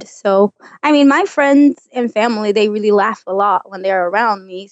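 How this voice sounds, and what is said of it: Non-native English accent. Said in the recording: “my accent and the way I say things in English”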